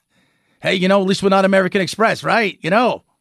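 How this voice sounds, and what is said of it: New York Italian accent. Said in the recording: “You gave him like a New Yorkie Italian accent.”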